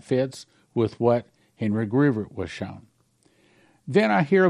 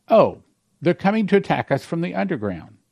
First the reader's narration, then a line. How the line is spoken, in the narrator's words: I exclaimed